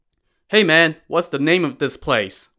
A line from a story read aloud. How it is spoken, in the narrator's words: Wu Song called out to him